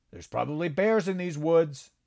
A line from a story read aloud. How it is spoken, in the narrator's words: said loudly